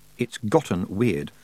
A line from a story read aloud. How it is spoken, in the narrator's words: said her third thoughts quietly